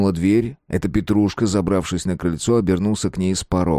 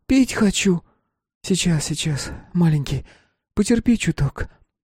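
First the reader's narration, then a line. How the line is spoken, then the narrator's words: Hoarse croak. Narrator (Russian): прохрипела Лукерия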